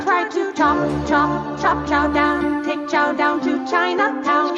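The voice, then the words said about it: Sustained put-on accent while singing. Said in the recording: “How is she keeping the accent going?”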